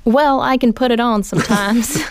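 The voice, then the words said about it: Put-on Southern US accent. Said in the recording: “you don't exactly have the Southern accent? ... That's pretty good. ... It's not very good. ... pretty good, pretty convincing.”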